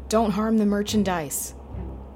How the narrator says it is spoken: The cry

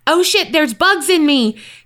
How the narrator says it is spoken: a kid who screamed bloody murder

